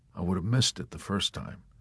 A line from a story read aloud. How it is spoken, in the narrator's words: Yossarian replied softly, his face lowered